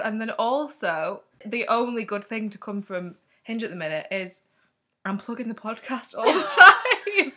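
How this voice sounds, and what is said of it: Northern English accent. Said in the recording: “have you got a northern accent? And I said, yeah.”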